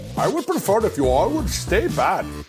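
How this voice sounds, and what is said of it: Put-on Indian accent. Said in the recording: “in your best Indian accent”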